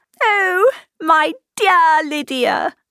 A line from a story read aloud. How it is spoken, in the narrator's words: she cried